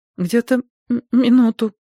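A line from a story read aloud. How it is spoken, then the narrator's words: Trembling voice. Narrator (Russian): дрожащим голосом произнесла она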